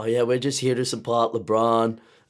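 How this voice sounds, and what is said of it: Put-on American accent. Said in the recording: “American accent?”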